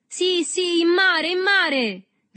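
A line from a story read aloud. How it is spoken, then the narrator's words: Crowd shouting together. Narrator (Italian): gridarono tutti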